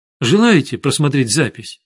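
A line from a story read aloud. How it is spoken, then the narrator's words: Plain question. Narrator (Russian): спросил я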